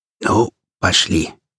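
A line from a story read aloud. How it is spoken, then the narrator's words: Whisper. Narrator (Russian): прошептал Хромой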